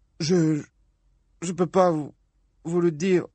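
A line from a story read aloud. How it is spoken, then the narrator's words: Sobbing. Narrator (French): sanglota-t-il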